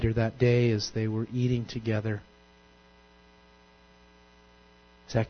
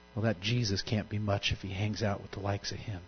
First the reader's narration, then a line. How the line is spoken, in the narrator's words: some in the crowd grumbled scornfully